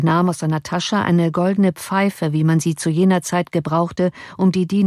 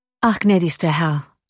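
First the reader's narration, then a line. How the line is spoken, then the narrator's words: Sad reply. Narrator (German): erwiderte traurig der Oberst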